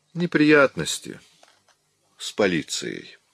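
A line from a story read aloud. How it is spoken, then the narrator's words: Calm. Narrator (Russian): спокойно произнес Чандлер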